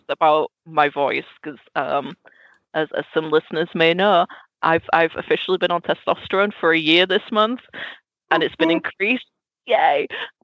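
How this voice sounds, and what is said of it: Squeaky, changing voice. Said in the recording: “my voice is doing the weirdest thing. It's going squeaky ... we're going back to the squeaky, annoying phase”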